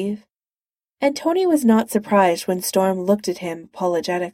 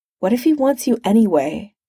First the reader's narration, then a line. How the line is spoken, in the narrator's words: said Steve